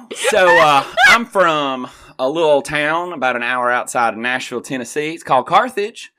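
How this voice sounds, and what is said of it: Southern Tennessee country accent. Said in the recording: “hiding my accent ... he has an accent ... slip into Old Red for you just a little bit”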